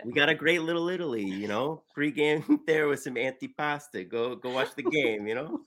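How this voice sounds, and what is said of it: Put-on Italian-American accent. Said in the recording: “It's the Italian-American thing ... These are good accents. ... It's a pretty good accent.”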